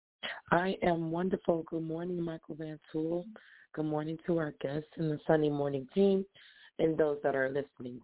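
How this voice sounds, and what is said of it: Slightly hoarse voice. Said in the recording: “excuse my voice. I'm a little hoarse”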